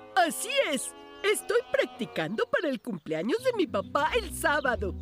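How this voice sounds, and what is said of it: Put-on Spanish (Spain) accent. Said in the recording (Spanish): “¿por qué estás hablando tan raro últimamente? ... ¿Practica su acento español? ... voy a tratar de hablar todo el día con acento español”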